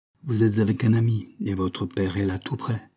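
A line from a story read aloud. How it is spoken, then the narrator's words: Plain reply. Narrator (French): répondit Graham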